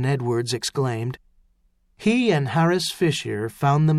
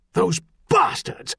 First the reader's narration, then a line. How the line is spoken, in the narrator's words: snapped